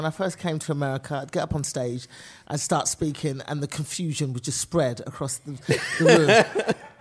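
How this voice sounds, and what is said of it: British accent. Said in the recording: “most people can't tell the difference between a British and Australian accent ... I am from England”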